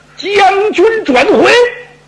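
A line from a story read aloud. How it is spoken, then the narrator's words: Alarmed loud shout. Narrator (Chinese): 袁本初一听，这声音不对，他大喊一声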